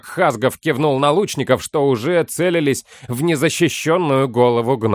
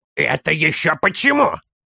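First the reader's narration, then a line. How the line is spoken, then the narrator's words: Growling child. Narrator (Russian): зарычал малыш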